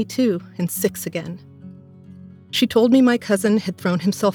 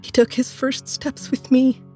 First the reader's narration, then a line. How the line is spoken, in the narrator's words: she sobbed